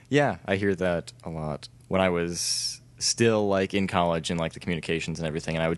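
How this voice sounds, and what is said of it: Smooth public-radio-style speaking voice. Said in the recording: “you have public radio voice. ... You just have a really good voice for podcasts.”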